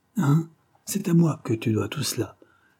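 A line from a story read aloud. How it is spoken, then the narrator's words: Triumphant exclamation. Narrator (French): s'écria-t-elle avec une explosion de triomphe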